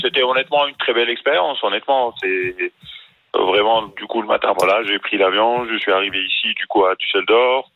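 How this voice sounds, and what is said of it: Tunisian accent in French. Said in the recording (French): “t'as un accent tunisien”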